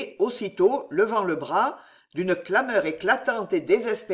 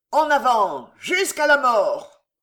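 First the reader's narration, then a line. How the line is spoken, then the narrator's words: Thousands of riders roaring savagely. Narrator (French): Les 2000 cavaliers, les 2000 sacrifiés, d'un accent sauvage, rugirent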